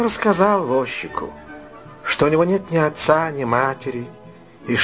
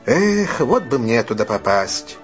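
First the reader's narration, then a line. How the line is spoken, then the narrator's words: Sigh. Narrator (Russian): вздохнул Дик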